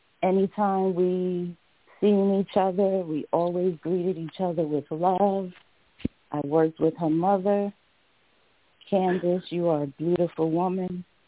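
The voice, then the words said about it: Nervous shaky voice. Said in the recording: “I'm nervous. I know you can hear it in my voice.”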